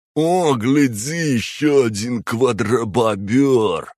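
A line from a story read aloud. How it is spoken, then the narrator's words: Nasal voice. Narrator (Russian): услышал я гнусавый голос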